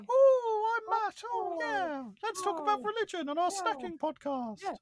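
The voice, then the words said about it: Imitates another person's voice. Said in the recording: “I did a good impression of you”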